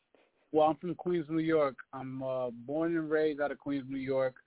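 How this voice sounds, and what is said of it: Noticeable accent. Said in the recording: “But you got an accent, though. You speak a foreign language?”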